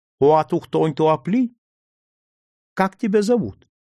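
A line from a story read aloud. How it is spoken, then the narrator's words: Timid, shy voice. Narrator (Russian): боязливо ответила мне на своем языке и своим собственным застенчивым голосом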